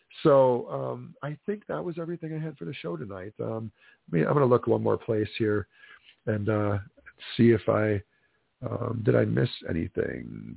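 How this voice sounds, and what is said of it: Hoarse, stuffy voice. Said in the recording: “I'm a little bit hoarse / stuffy. I got a man cold”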